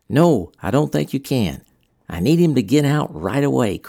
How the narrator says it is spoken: Krantz said

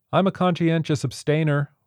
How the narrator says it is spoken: one piped up

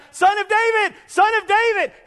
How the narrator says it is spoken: blind beggar shouting out

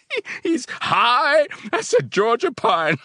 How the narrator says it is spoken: I laughed

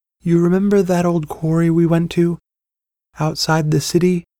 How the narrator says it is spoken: Her voice was wistful, distant

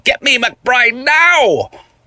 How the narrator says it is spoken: The person on the phone shouted at me

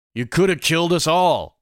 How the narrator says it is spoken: yelled at him

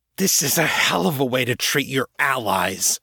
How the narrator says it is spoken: Shaw hissed

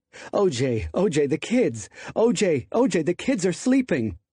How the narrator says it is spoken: Nicole pleaded

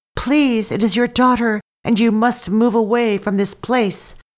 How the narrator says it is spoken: She called out to her people

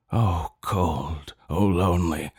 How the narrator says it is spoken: he groans

